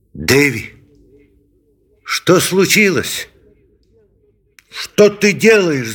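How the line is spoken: Angry shout. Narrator (Russian): закричал он сердито

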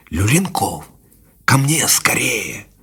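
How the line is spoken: Quiet whisper. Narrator (Russian): Позвал тихим шепотом

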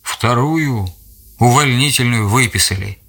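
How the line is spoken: Plain. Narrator (Russian): ответил Гриша

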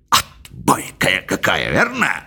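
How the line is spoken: Whisper. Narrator (Russian): прошептал мистер Джонас

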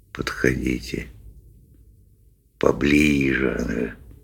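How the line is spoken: Quiet coaxing. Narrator (Russian): тихонько подзадаривал он рыб

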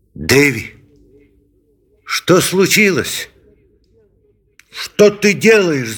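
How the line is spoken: Angry shout. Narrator (Russian): закричал он сердито

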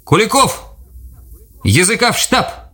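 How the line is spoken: Distant shout, lieutenant. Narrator (Russian): крикнул из-за ельника лейтенант

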